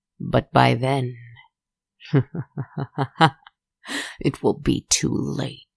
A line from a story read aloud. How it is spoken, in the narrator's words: he said, laughing